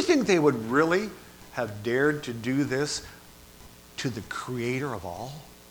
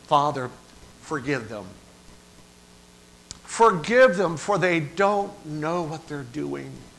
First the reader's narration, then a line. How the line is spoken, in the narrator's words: he cries out to the Lord